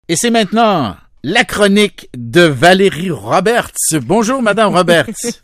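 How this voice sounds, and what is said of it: Put-on Parisian French accent. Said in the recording (French): “J'ai mon petit accent parisien ce matin.”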